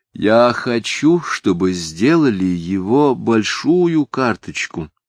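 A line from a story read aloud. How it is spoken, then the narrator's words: Plain. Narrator (Russian): сказала Софичка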